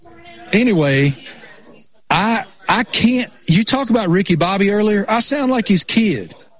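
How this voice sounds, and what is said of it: Thick rural Appalachian accent. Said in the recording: “I am such a hillbilly redneck that it's unbelievable how thick my, you know, rural Appalachian accent is.”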